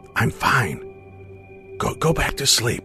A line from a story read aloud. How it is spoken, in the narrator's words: gathered up my courage and whispered back